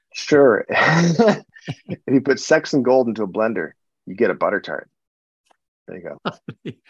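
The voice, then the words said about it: Canadian accent. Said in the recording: “your Canadian twang”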